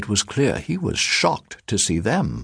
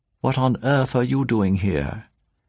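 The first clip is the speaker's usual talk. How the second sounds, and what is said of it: Clear, crisp English accent. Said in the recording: “speaking in a clear, crisp English accent.”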